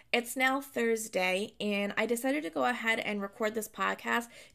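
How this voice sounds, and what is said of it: Strained, partly lost voice. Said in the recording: “My voice sounds a little bit off today. I lost it back on Monday, and I've been struggling to get it back ever since ... for my voice to sound like this”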